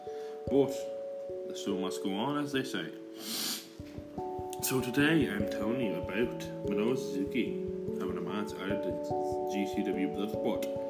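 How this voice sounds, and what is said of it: Tired, worn-out voice. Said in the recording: “if I sound very tired, that's because I am very tired. I'm absolutely fucking destroyed”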